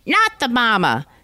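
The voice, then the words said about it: Imitates a TV puppet baby's voice. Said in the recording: “my impression of the baby from Dinosaurs”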